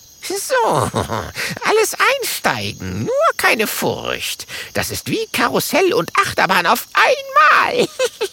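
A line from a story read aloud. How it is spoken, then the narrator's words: Witch giggling. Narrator (German): kichert die Hexe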